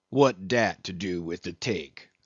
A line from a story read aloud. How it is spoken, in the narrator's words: said the old black testily